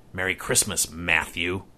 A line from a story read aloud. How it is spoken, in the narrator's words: said Kelsey with a cruel sneer